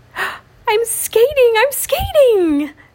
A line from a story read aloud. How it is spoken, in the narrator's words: said Daniel happily